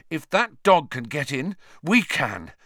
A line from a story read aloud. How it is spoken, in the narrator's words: Harry panted